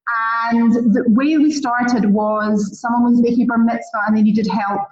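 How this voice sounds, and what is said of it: Scottish accent. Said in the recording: “you can hear from my accent. I'm actually Scottish, not English.”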